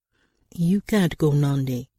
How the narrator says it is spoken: he said sternly

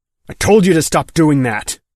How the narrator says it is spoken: Mick snapped

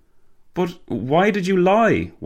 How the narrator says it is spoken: Walter gasped

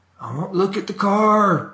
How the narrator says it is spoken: the old man yelled

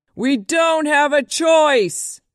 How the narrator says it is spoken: screamed

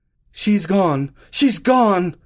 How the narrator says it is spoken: cried

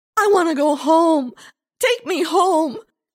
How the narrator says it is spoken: Lindsay wailed

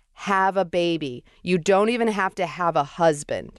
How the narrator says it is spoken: she said loudly to me

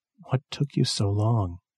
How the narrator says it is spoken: she said, smiling weakly

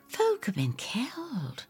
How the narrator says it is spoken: I whisper

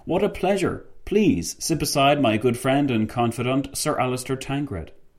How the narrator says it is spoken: Fitzwilliam exclaimed

